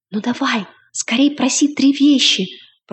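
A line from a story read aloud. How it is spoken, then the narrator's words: Young man whispering. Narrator (Russian): прошептал юноша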